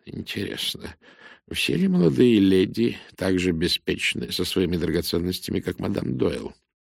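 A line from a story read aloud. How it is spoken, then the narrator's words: Barely audible voice. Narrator (Russian): Он проговорил еле слышно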